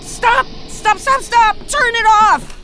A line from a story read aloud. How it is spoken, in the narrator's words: I finally yelled